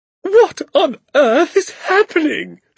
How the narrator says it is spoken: she shrieked

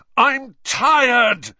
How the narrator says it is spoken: he bellowed finally

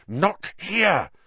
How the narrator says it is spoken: Harry hissed

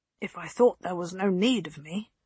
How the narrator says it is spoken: Guyon murmured

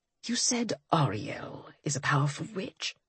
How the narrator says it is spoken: He asked in a low whisper

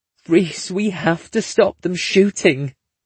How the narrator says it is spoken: she moans

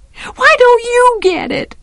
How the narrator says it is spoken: I screamed

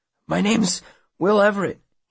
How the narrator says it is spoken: he says hoarsely

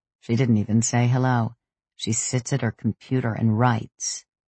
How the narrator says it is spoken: he grumbled

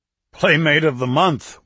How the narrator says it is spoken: Winston said with a hearty laugh

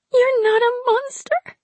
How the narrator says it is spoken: the girl whimpered

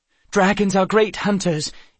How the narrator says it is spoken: Eve said breathlessly

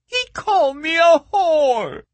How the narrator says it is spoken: the girl wailed again

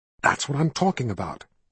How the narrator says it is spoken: he whispered

